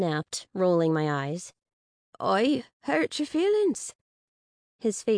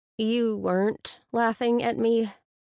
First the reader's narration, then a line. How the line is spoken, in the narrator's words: I asked hesitantly